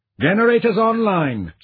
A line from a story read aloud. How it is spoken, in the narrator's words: Sara called out